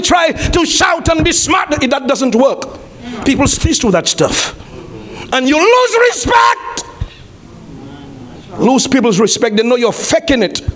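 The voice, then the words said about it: Shouting. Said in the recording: “sorry for shouting.”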